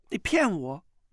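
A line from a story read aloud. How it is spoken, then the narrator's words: Trembling voice. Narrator (Chinese): 穆婉清颤声道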